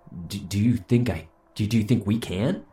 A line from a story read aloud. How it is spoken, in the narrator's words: I called, wheezing as I hauled a worn-down body up steep inclines and over thick logs